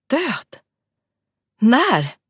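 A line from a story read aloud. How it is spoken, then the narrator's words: Exclaiming. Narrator (Swedish): utbrast hon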